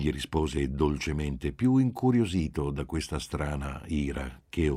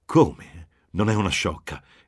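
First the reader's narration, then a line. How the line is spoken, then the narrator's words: Irritated, surprised exclamation. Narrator (Italian): esclamò irritata e quasi sorpresa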